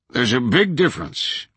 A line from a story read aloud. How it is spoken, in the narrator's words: Williams boomed